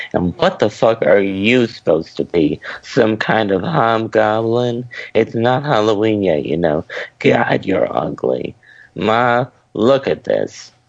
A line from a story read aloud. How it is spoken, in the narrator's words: laughed to himself, saying